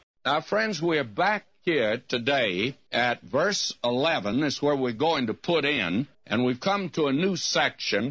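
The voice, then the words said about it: Strong Texas accent. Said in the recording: “he is a pastor from Texas ... He's got this really strong accent.”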